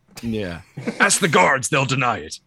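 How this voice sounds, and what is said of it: Good impression of Kingpin character. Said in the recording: “That's pretty good. That's a good impression.”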